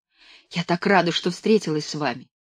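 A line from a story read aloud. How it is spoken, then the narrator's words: Whispered. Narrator (Russian): и шепнула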